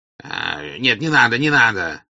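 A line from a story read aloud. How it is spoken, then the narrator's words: Shouting. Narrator (Russian): прокричал он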